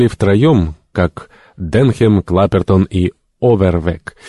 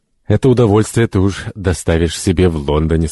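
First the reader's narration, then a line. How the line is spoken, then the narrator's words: Plain. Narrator (Russian): сказал доктор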